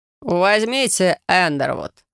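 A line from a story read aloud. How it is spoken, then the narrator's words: Chuckle. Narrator (Russian): хохотнул Корнуэлл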